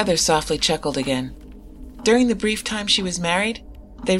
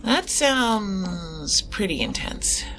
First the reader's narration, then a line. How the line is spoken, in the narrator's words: I muttered the last part